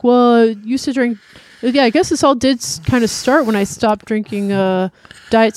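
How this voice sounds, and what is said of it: Bad impression of another person's voice. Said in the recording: “It's a bad impression.”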